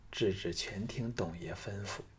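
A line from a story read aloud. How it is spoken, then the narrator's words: Low, bashful. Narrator (Chinese): 赵志不知想到哪里去了，俏脸红了起来，低声说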